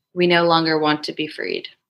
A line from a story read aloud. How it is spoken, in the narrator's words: a single phrase in a calm voice respond